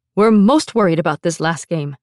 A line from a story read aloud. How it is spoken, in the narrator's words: Teacher Chen barked